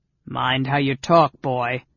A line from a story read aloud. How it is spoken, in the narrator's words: he growled